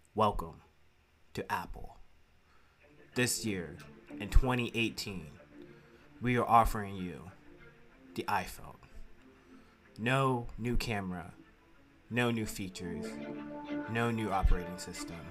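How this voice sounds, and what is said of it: Impression of Apple keynote presenter. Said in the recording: “do a little impression. This is how Apple keynote go in 2019.”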